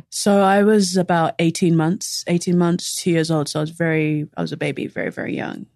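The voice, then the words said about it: Distinctive non-American accent. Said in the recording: “her accent is what dreams are made of”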